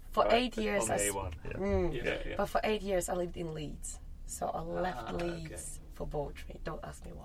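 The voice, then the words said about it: Slight Leeds accent. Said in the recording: “you got a bit of Leeds accent”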